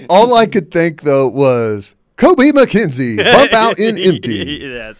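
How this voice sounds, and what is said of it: Sports announcer voice. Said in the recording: “That's the first time you've joined me on the announcer voice ... it's maybe enough to where people get it, but it's not like yours”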